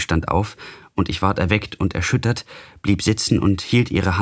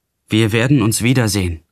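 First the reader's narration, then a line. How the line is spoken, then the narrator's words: Called out. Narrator (German): rief ich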